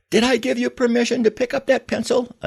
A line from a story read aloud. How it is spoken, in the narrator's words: another soldier screamed